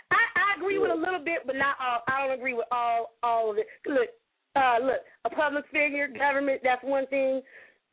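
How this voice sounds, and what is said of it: Strained, fading voice. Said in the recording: “My voice is going out.”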